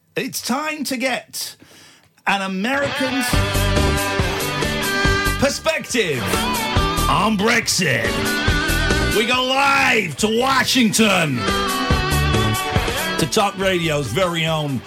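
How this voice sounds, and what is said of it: Put-on American accent. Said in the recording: “I don't know why I'm doing an American accent, I'm British.”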